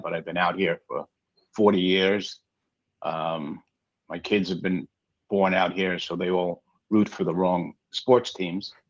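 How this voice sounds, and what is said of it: New York accent. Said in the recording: “The accent may say I'm from New York”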